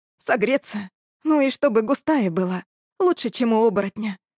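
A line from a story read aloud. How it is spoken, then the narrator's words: Sighing. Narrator (Russian): вздохнул я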